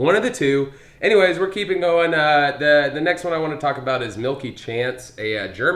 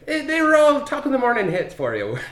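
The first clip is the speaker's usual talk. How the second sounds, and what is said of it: Put-on Irish accent. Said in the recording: “the last Irish accent.”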